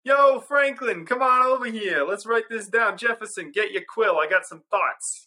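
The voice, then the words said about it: Put-on New York accent. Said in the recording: “the New Yorker accent”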